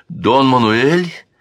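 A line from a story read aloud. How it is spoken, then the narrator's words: Exclaimed. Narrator (Russian): воскликнула Камила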